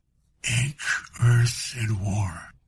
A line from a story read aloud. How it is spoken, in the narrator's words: he whispered